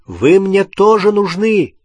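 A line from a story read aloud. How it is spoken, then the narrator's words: Calling out. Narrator (Russian): крикнул он Рону и Гермионе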